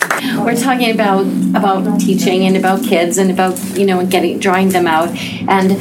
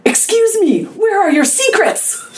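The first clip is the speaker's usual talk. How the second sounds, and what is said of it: Breathless, bad foreign accent. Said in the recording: “a sweaty, out-of-breath foreigner ... I breathlessly, in a really bad accent, said”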